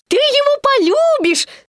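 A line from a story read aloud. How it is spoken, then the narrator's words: Squeaked. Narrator (Russian): Пропищал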